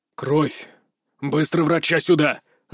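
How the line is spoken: Sudden startling roar. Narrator (Russian): рыкнул он вдруг так, что, по-моему, все присутствующие ощутимо вздрогнули

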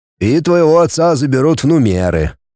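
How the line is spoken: Gloomy. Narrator (Russian): мрачно сказал Федор

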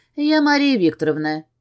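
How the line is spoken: Confident and calm. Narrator (Russian): говорю ему уверенно и спокойно

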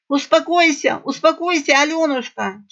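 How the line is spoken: Breathless wheeze. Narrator (Russian): тяжело дыша прохрипела Айдзумица

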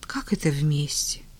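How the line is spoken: Tired surprise. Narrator (Russian): устало удивилась Таня

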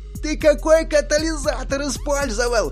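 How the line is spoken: Shouting over loud noise. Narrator (Russian): закричал, перекрывая невозможный гул, один из ботанов

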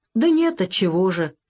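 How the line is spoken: Offended. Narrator (Russian): обиженно поджал губы Иван Мартынович

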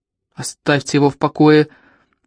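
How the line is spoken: Big crocodile's growl. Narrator (Russian): прорычал в ответ большой крокодил

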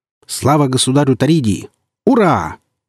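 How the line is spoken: Joyful bark. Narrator (Russian): радостно гаркнул Алексей

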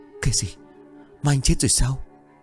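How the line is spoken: Frightened stammer. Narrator (Vietnamese): Hồng nó thẳng thốt vì sợ hãi nó lắp bắp

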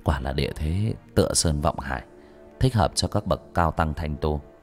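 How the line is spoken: Whisper. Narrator (Vietnamese): Bác Cổ thì thầm

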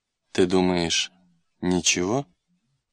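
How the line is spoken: Calm, haughty old man. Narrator (Russian): спокойно и надменно ответил один старик

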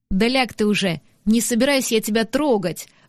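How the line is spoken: Sudden bark. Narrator (Russian): вдруг рявкнул танговор

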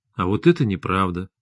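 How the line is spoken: Calm. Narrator (Russian): спокойно сказал Максим

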